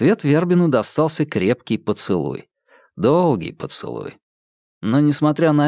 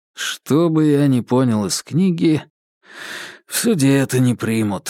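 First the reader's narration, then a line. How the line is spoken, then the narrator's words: Sighing. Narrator (Russian): вздохнул Вербин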